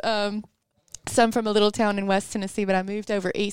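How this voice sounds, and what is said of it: Tennessee accent. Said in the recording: “look at my accents, just come back just talking about it”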